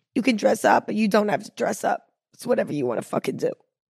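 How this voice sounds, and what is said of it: Raspy voice. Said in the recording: “I feel like a New Yorker right now with my raspy voice”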